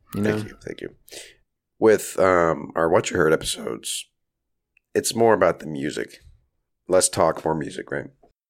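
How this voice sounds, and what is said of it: Slightly raspy voice. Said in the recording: “my voice is a little raspy. I'm recovering from a cold here”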